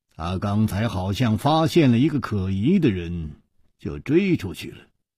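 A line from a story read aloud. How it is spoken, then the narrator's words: Calm, indifferent. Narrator (Chinese): 楚留香淡淡地说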